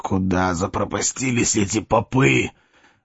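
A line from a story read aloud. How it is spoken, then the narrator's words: Grumbling. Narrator (Russian): ворчал барон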